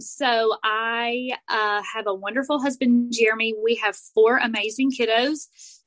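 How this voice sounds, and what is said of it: Southern US accent. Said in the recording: “I have the full Southern accent that's actually gotten better over the years”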